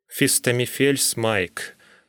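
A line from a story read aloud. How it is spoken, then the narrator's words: Gloomy interjection. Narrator (Russian): мрачно вставил я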